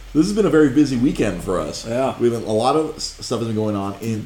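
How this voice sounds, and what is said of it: Radio announcer voice. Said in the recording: “I can play my radio voice.”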